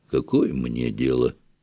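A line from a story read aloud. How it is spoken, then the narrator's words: Sullen grumble. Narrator (Russian): насупился и, проворчав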